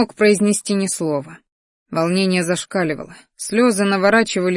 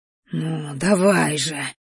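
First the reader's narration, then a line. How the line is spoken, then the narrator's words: Whispering. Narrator (Russian): шептал Рахтар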